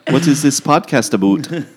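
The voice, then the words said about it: Put-on unidentified accent. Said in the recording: “I don't know what accent that is.”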